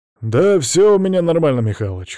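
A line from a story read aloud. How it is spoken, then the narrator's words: Smirking snort. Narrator (Russian): хмыкнул Макс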